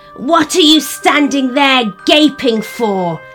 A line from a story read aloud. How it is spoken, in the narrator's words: yelled